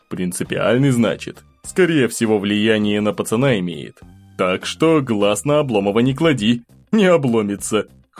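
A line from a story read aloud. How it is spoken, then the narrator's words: Prince chuckling at pun. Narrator (Russian): хохотнул князь со своего каламбура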